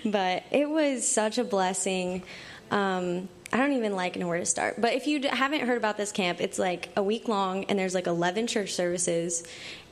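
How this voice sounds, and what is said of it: Raspy, hoarse voice. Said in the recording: “tell from my voice, I had a great time because I'm all raspy.”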